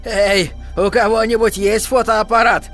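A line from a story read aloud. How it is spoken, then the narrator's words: Old man shouting. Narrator (Russian): старый седой Джон Ли Фровин крикнул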